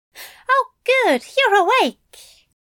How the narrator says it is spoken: Aziraphale chirped

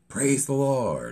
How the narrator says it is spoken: inexplicably started chuckling to himself before standing and shouting out

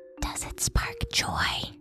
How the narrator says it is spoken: she whispered, her breath warm on my neck

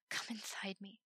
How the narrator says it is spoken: breathed

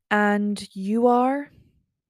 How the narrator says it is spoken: I prompted slowly

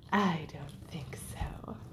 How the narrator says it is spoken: purred the Siamese

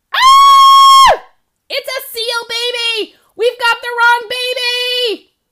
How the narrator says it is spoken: He yelled

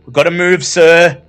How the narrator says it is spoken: cautions nervously

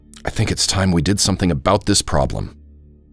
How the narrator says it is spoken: she whispered

